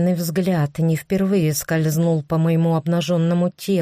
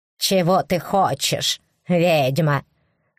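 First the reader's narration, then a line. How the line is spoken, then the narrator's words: Scoffing grunt. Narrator (Russian): хмыкнул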